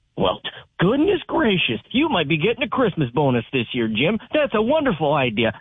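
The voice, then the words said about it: Mock voice of dumb scientists. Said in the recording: “my impression of dumb scientists”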